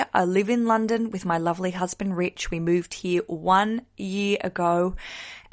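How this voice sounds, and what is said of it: Australian accent. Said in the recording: “I'm a stand-up comedian from Australia... the accent will be here forever”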